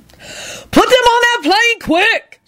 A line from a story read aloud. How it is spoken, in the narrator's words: She bellowed